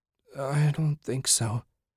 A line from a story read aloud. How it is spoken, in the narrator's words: mumbled